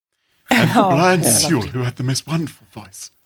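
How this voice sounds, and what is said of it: Brian Sewell impression. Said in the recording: “That's very good. ... It's a very good impression ... I do a rather wonderful Brian Sewell impression”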